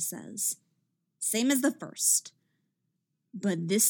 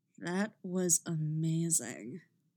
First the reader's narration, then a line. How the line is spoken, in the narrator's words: Mick purrs